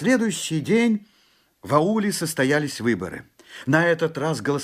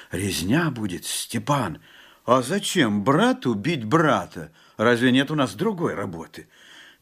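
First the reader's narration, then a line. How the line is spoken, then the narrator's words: Fearful whisper. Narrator (Russian): Жапак только прошептал в страхе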